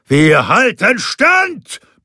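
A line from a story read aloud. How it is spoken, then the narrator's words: Roaring. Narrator (German): brüllte er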